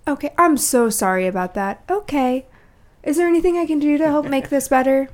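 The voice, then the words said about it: Sweet, overly polite customer-service voice. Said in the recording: “I have a really great phone voice”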